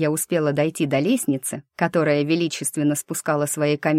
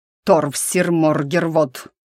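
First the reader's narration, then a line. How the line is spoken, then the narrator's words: Thundered from behind. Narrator (Russian): прогремело позади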